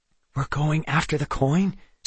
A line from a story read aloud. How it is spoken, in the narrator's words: Seth whispered